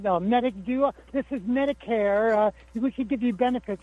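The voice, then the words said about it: Imitated Indian accent. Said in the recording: “they're calling from India ... Indian accent”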